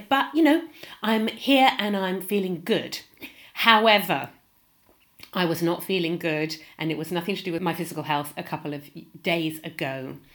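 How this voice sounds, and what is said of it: Congested, blocked-nose voice with a cold. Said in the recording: “I've got a bit of a cold. You might be able to hear it. I can't breathe through my nose properly”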